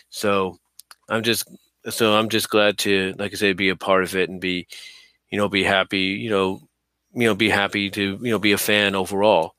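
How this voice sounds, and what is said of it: Slurred, tired late-night speech. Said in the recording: “I know I'm slurring my words. It's late.”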